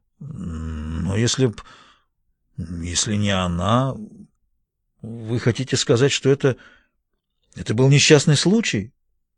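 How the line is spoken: Uncertain reply. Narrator (Russian): Мередит Блейк ответил неуверенно

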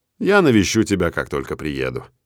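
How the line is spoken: Neutral tone. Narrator (Russian): нейтральным тоном обещаю

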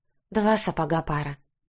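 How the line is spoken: Sighed. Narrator (Russian): вздохнула я

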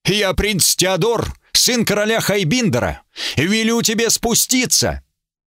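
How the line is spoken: Shout. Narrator (Russian): Рыцарь крикнул

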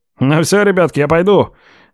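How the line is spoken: Cheerful announcement. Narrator (Russian): весело сообщает прораб

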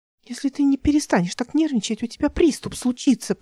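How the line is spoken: Whispered. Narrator (Russian): прошептала она

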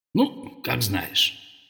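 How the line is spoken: Grumbling adviser. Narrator (Russian): пробурчал советник

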